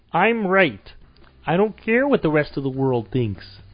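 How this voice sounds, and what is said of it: Kermit the Frog-like impression voice. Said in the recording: “your George Lucas impression ... Which is basically Kermit the Frog”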